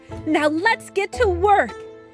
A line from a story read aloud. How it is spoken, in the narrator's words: Alice cried